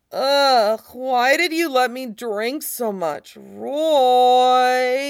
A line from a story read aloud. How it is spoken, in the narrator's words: Ed pitches his voice, whiny and bereft as he moans